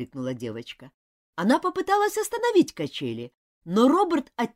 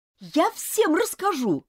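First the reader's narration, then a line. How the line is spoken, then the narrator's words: Shouted. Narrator (Russian): крикнула Элизабет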